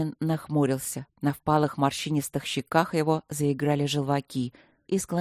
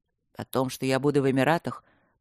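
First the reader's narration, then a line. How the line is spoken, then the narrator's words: Grim, not listening. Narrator (Russian): продолжил Люк мрачно, не слушая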